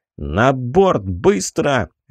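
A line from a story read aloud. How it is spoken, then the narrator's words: Barked shout. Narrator (Russian): рявкнул я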